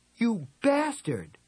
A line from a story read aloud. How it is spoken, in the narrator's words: cried